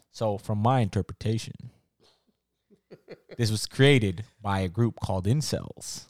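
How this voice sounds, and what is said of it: Put-on radio announcer voice. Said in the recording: “let me put on my radio voice... let me put on my internet voice.”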